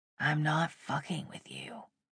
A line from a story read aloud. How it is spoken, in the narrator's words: he said quietly